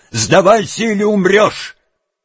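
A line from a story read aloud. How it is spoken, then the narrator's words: Shouting. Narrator (Russian): он крикнул ему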